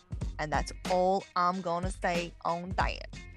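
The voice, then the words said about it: Poor Forrest Gump impression. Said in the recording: “my terrible Forrest Gump impression”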